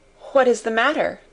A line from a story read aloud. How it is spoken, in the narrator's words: asked the passenger then, with mildly quavering speech